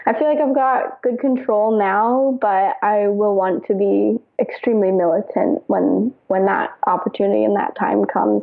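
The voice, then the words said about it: Midwestern accent, sweet-sounding voice. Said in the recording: “you have this Midwestern accent ... I think you sound sweeter than you are.”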